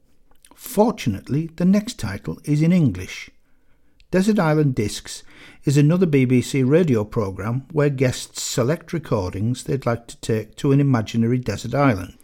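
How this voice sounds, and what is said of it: Northern English accent. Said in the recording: “This voice, with a northern accent,”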